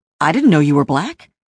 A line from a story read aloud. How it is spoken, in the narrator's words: he blurts out